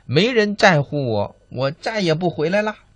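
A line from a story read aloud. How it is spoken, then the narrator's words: Angry shout. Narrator (Chinese): 罗拉生气的大声喊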